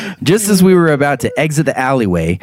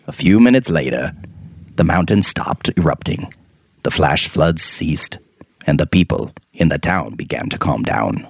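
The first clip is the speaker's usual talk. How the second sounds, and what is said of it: Morgan Freeman narrator impression. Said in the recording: “I feel like I should be talking in a Morgan Freeman accent right now ... That's pretty good.”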